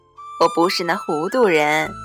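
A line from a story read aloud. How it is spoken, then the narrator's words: Laughing. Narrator (Chinese): 红姑笑说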